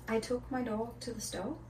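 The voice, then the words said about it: Poor put-on British accent. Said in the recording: “With a British accent... That's so bad... It's so bad... your British accent is worse than my bang”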